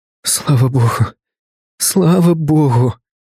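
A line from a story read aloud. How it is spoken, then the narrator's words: Muffled sobbing. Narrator (Russian): Она рыдала, прижимаясь лицом к моей груди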